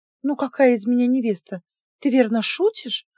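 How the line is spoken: Tense laughter. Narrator (Russian): Напряженно рассмеялась

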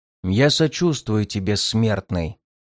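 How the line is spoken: Growling creature's voice. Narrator (Russian): прорычало создание голосом, отдаленно похожим на голос Данмара

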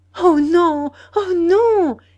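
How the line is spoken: Exclaimed. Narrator (French): s'écria-t-elle

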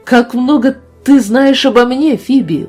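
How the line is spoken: Exclaiming. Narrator (Russian): воскликнула она

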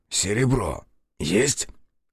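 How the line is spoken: Suddenly hoarse question. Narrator (Russian): внезапно охрипнув, спросил он

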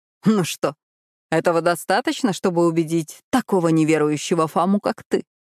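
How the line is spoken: Laughing. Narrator (Russian): Он рассмеялся

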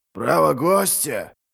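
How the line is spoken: Stunned mutter. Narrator (Russian): пробормотал один из воинов, ошеломленно

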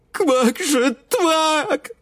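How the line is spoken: Sobbing wail. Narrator (Russian): заголосила всхлипывая лягуха

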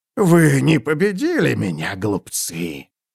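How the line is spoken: Hissed. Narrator (Russian): прошипел он

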